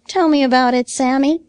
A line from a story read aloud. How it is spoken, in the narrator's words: he begged